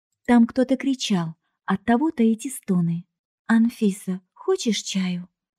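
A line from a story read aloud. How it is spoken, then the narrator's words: Gentle, affectionate. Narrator (Russian): ласково предложила Женька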